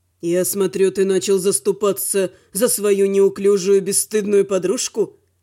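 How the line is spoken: Scoffing. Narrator (Russian): хмыкнул Велор

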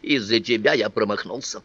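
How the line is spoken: Grumbled. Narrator (Russian): проворчал

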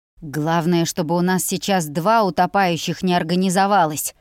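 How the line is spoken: Hissing. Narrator (Russian): прошипел Хейл

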